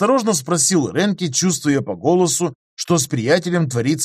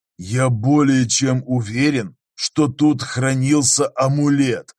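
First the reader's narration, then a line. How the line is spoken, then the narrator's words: Hollow muffled reply. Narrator (Russian): ответил ему глухим голосом Готар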